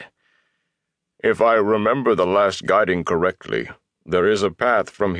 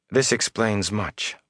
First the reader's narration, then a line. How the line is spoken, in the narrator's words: Moraine said softly